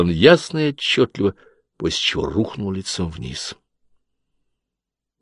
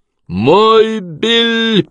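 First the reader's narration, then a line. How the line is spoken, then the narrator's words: Shouting young man. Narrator (Russian): прокричал молодой мужчина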